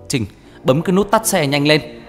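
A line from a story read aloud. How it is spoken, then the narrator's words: Loud shout. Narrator (Vietnamese): Anh liền hét lớn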